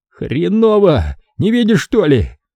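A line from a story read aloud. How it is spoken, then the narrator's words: Pained shout. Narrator (Russian): кривясь от боли, выкрикнул Бача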